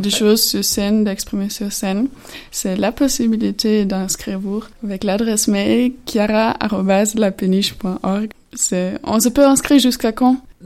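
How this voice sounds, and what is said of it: Slight German accent in French. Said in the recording (French): “son petit accent qu'elle n'est pas bourguignonne... elle est allemande”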